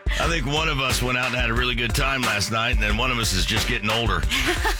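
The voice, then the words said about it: Tired, lower-pitched voice. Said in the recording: “I may sound a little plum tuckered out today... You sound a little lower than normal.”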